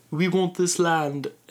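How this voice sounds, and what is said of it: Put-on British accent. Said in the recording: “that's my british accent”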